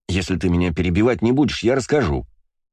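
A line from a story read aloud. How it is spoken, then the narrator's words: Snapping retort. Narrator (Russian): огрызнулся Астарот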